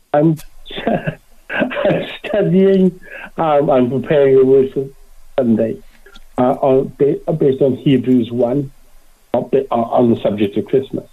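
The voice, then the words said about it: Speaks slowly with an accent. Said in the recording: “I'll speak slowly because I'm conscious I have an accent.”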